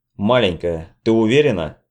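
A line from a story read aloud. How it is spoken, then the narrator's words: Stern question. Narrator (Russian): строго спросил Питер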